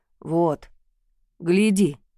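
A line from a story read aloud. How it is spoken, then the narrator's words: Thunderous booming voice. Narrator (Russian): проговорил, и в комнате словно прогремел гром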